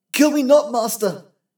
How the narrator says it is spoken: he cried

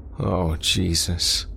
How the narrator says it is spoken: Craig moaned

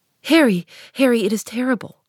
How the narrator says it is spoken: cried the lad

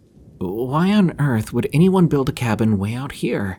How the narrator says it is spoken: Sarah asked, her voice trembling

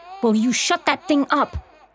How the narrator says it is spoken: Cass yells

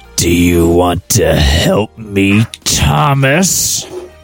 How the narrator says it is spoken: Rosie breathed

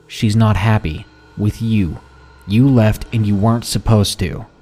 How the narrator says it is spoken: very solemnly said

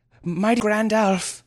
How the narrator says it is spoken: he eventually panted

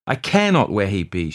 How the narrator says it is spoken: she cried

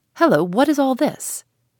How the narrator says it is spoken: a great stout man, one of the keepers, came up and cried out

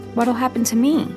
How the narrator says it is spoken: I asked, my voice small and squeaky

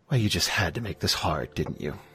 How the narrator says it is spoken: she's going to say under her breath

